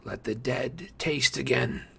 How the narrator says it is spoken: he murmured

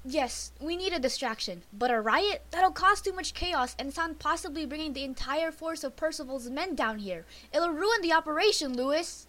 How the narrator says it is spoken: she shouted at him

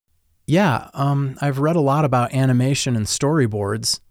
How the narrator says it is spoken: I answered

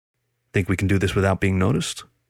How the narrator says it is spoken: Roland said calmly

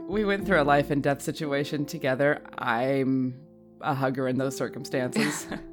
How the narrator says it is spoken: Rowan will actually laugh outright at that and be like

